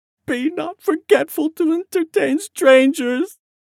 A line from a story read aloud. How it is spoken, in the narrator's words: Jamie sobbed, choking on emotion